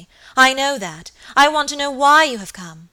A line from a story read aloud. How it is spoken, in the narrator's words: cried Lady Audley, impatiently